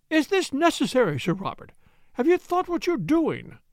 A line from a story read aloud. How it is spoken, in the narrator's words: cried the woman